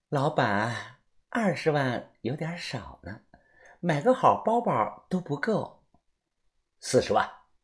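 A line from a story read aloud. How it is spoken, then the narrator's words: Soft coaxing voice. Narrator (Chinese): 赛西施…他声音软软的说道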